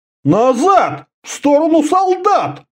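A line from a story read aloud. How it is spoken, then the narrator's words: Indignant shout. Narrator (Russian): возмущенно вскричал Орда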